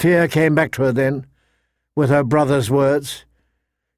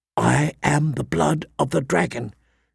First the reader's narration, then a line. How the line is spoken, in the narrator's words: she whispered aloud, trying to keep her courage up